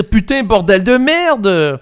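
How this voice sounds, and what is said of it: Put-on Parisian suburb accent. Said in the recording (French): “C'est un accent voisin en périphérie de Paris que tu utilises”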